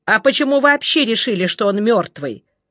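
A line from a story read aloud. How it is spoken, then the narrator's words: Angry, insistent. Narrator (Russian): Все еще сердито допытывался Жеглов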